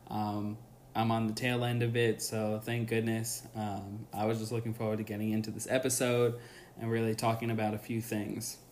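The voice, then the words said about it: Slightly scratchy voice. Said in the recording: “I got some sort of bug, and my voice is a little scratchy”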